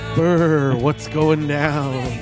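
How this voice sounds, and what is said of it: Effeminate ghost voice. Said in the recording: “He sounded like an effeminate ghost”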